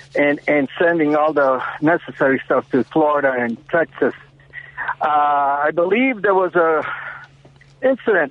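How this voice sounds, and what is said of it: Breathless, out-of-breath speech. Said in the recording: “I'm out of breath. I'm outside kind of running.”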